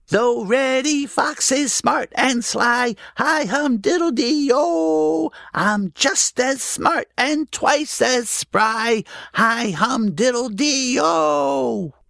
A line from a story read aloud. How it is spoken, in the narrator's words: In his funny little squeaky voice, Danny shouted